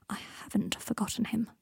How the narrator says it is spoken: said Draco quietly

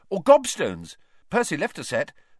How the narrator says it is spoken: said hastily

